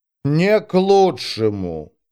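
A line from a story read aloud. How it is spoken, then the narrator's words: Grumble. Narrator (Russian): буркнула Кельмандарос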